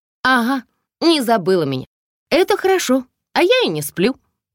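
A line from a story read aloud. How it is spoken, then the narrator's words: Cheerful, joking. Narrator (Russian): сказала Надя весело, шутливой интонацией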